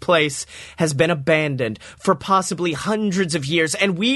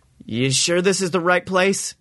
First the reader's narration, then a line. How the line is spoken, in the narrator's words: Tony says nervously